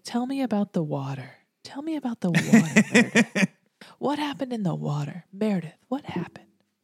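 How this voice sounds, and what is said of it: Imitates a TV character's voice. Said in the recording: “It's a really good Denny impression.”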